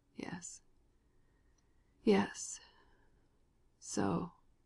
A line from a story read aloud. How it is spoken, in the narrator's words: the dying man murmured slowly, with long pauses